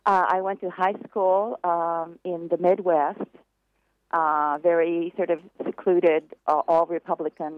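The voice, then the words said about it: American English accent. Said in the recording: “even if I have an American accent”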